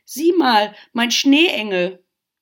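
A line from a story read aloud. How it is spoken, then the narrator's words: Shrieking. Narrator (German): kreischten sie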